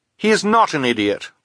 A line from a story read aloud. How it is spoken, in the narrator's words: Violet said fiercely